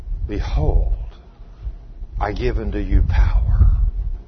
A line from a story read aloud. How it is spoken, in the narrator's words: God whisper to you